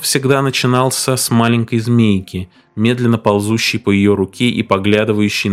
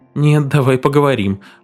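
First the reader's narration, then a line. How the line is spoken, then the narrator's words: Strained laugh, coughing. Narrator (Russian): попыталась засмеяться, но закашлялась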